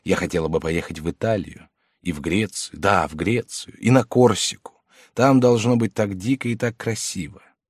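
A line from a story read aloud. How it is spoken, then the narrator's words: Quiet voice. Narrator (Russian): Потом тихим голосом сказала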